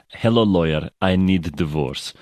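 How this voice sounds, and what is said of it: Melania Trump Eastern European accent impression. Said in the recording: “you can do it in her accent ... You have to almost sound like her when you say it. And it's always going to be this like sloppy Eastern European kind of slightly patronizing and probably quite racist voice ... that Melania accent”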